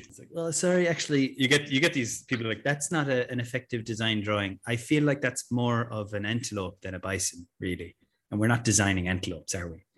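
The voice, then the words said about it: Imitated Irish accent, politician's voice. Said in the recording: “You've gone a bit of a De Valera voice there. ... Very subtle Irish accent ... I've gone into the current president of Ireland. ... my terrible interpretation”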